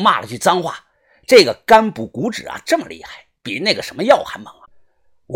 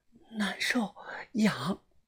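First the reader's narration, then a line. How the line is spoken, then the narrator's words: Soft, breathy. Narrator (Chinese): 吐气轻声的说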